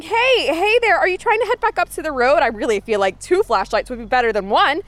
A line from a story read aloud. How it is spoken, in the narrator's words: running, shouting